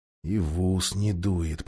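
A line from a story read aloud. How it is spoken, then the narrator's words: Muttering. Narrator (Russian): пробормотал Юстас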